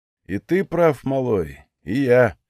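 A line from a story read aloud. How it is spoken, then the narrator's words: Sighing. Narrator (Russian): вздохнул Легион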